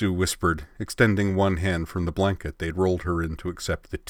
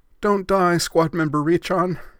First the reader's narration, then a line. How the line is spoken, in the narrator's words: Yui pleaded